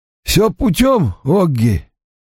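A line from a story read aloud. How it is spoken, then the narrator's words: Hoarse, strained voice. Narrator (Russian): Ник заговорил хрипло, как будто сорвал голос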